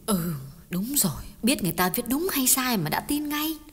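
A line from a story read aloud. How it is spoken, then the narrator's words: Gentle, soft. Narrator (Vietnamese): Bà nhỏ nhẹ góp ý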